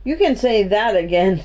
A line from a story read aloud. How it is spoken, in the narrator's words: said Henry, laughing